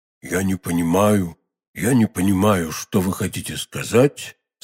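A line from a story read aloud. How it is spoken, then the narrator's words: Calm reply. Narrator (Russian): спокойно ответил Фельтон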